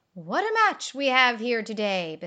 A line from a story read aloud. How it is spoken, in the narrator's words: Bismarck exclaimed